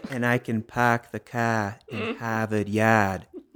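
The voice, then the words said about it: Exaggerated Boston accent. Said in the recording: “say something in that accent because I'm not an American and that's like very famous accent ... I am from Boston”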